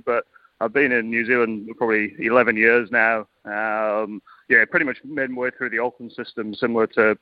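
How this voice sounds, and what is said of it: British accent. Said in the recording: “you can tell by my accent from the UK initially”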